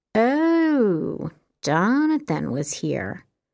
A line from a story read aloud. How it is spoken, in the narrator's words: echoed in a teasing voice